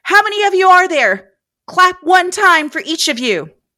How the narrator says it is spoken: Fearing for their lives and the answer to their next question, Beth yelled

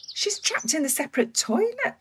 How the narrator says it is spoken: Lynn squeaked

